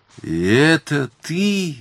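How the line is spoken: Exclaiming. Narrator (Russian): воскликнула она

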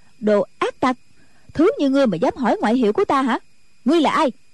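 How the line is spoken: Loud angry shout. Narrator (Vietnamese): Nico đó quát lớn

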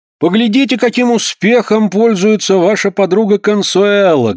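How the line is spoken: Loud. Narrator (Russian): громко обратился он к Кларинде

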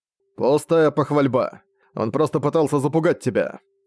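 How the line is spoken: Dismissive snort. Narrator (Russian): фыркнул Аланик

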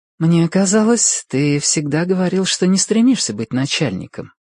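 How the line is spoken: Gentle objection. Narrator (Russian): мягко возражает

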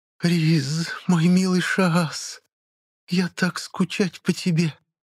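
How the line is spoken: Quiet, clear, half-asleep breath. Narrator (Russian): Негромко, но поразительно отчетливо выдохнул на шафа, находясь где-то между сном и реальностью

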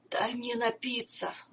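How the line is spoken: Strained, forced out. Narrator (Russian): выдавил

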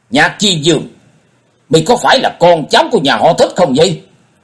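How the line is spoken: Raised voice, questioning. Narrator (Vietnamese): Dân Hư trầm tư một chút, ông cao giọng hỏi

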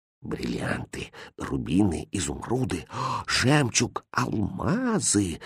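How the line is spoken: Awed whisper. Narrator (Russian): шептал пораженный этим богатством визирь

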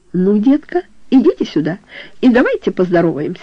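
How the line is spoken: Cheerful man. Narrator (Russian): весело сказал он

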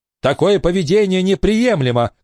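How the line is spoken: Shouted. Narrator (Russian): крикнула мальчику Элинор

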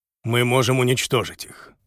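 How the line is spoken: Quiet, confident. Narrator (Russian): тихо, но уверенно сказал

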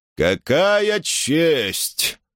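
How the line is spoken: Purring. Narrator (Russian): промурлыкал он

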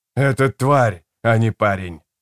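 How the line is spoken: Growling. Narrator (Russian): прорычал

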